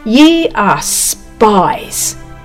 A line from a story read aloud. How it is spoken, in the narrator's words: he said sternly